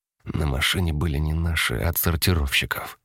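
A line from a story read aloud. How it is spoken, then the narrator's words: Whispered. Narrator (Russian): шепнул Костя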